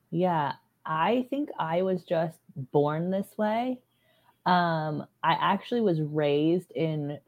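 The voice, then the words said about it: Creaky, sore-throated voice. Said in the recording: “I am dealing with a little bit of a sore throat... my voice is a little creaky”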